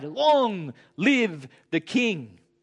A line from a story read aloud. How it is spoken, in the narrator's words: They cried